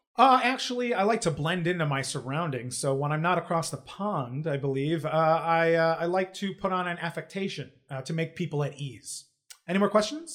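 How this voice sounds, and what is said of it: Put-on affected accent. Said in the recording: “you are speaking in a very different accent than you normally do”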